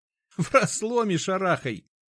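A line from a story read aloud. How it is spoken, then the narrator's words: Laughing. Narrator (Russian): рассмеялся Ефим Прохорович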